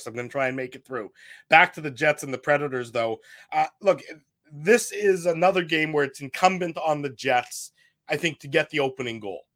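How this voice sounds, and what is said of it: Slightly hoarse voice. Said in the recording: “I'm a little bit under the weather ... My voice is a little hoarse.”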